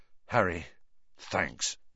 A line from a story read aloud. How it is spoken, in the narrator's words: George muttered